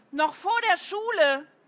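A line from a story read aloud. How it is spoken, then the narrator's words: Calling out. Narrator (German): rief Paul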